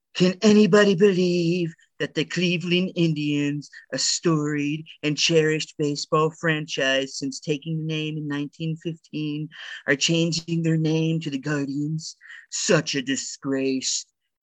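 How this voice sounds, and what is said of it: Imitates another person's voice. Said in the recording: “in my best Trump voice.”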